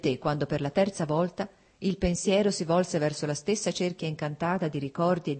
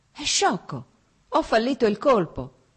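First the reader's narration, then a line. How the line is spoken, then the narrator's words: Exclamation. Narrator (Italian): esclamò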